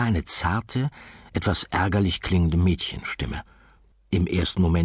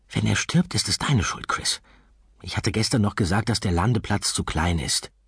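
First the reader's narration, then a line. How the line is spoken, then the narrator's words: Soft quiet voice. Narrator (German): eine leise Stimme sagen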